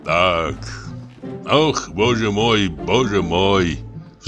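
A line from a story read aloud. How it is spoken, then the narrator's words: Sighing. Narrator (Russian): вздохнул Самойленко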